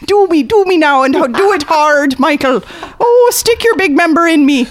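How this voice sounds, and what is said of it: Exaggerated Hollywood Irish accent. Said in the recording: “I've got an amazing Hollywood Irish accent... It's so far from reality.”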